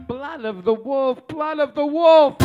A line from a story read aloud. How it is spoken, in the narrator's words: she'd moan in broken English